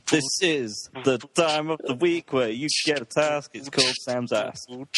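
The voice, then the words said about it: Fake American accent. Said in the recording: “your little faux American accent”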